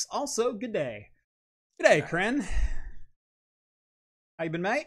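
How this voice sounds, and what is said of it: Attempted Australian accent. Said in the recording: “Aussie ... I've got to try the accent ... Hope that was passable.”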